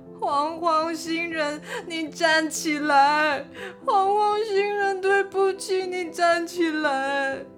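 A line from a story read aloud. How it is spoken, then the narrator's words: Crowd crying and shouting. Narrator (Chinese): 大家一边哭一边喊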